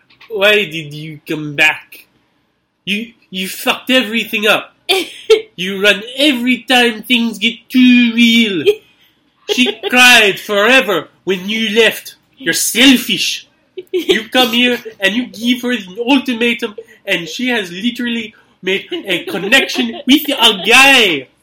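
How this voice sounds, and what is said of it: Good put-on Russian accent. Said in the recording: “that was a really good Russian accent.”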